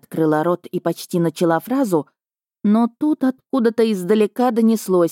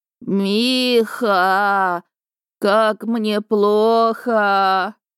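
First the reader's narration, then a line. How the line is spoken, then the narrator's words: Moaning. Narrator (Russian): Бывший застонал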